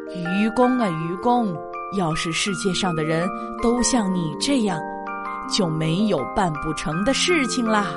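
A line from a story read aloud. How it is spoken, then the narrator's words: Stunned admiration. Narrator (Chinese): 智叟愣了一会儿，情不自禁的感叹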